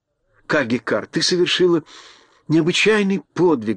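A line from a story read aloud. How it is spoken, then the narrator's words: Fervent exclamation. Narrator (Russian): горячо воскликнула Элли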